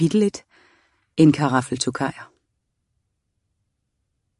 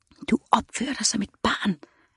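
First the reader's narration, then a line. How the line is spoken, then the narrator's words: Whisper. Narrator (Danish): hviskede hendes Daimon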